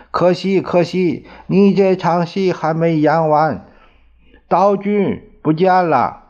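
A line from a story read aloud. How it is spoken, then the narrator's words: Sighing. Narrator (Chinese): 米海恩叹息说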